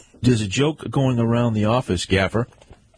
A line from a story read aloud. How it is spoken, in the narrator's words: chuckled Detective Sergeant Slater